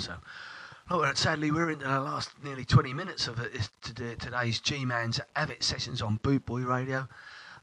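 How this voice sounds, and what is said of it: Congested voice from a cold. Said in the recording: “I've got a bit of a cold. There you go, sneezing every now and then”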